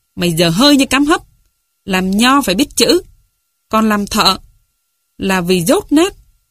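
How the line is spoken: Snapping, irritated. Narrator (Vietnamese): Ông cả gắt

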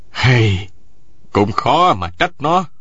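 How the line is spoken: Sighing. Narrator (Vietnamese): Nguyễn Sĩ Trung thở dài một tiếng nói

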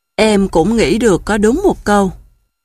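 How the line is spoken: Sighing. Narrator (Vietnamese): Chú gấu thở dài

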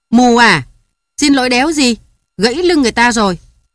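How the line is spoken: Angry shout. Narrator (Vietnamese): Cháu vịt nhảy dựng lên hét

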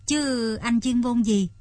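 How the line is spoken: Plain. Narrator (Vietnamese): Thục hỏi

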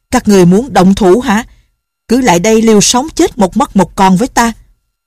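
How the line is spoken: Angry roar. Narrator (Vietnamese): Thiên Môn đạo nhân tức giận gầm lên

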